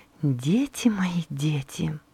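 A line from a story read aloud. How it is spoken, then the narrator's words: Quiet. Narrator (Russian): тихо проговорила она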